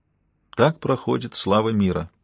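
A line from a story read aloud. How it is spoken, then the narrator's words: Sad. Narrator (Russian): грустно сказал он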